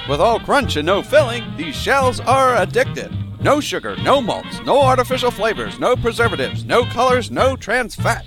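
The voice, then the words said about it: Old-time 1940s announcer voice. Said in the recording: “It was like 1940s announcer voice ... You know what it actually sounds like? The Clone Wars announcer.”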